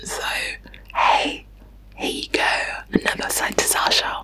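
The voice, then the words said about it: Whispering, soft and soothing. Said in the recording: “whispering ... Just listen to my own voice whispering. It's quite soothing”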